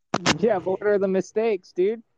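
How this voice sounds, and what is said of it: Californian dude accent. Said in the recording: “I sounded like a Californian white dude for a second.”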